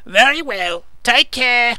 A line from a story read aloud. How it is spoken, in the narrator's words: admonished gaily